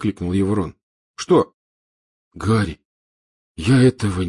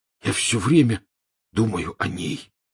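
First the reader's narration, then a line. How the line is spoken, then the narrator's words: Hoarse. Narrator (Russian): хрипло сообщил Рон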